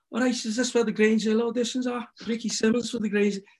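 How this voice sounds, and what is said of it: Put-on Liverpool accent. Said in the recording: “here's my Liverpool accent ... excuse the accent now, but I promise you, it was good at the time ... I built it out bad, level”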